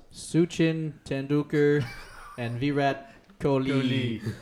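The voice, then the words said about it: Imitates another person's voice. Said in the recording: “It's my Donald Trump impression.”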